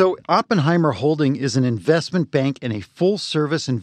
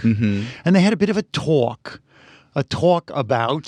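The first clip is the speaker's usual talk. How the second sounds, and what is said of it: Put-on New York accent. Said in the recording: “Your New York accent is terrible. ... I thought it was pretty good. ... it's a different one. It's different parts of Brooklyn.”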